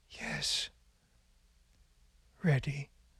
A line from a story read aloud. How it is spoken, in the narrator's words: Father Hooper, with great exertion, he breathed